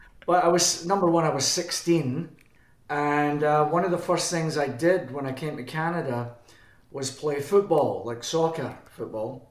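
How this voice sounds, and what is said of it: Scottish accent. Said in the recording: “why I've still got a Scottish accent.”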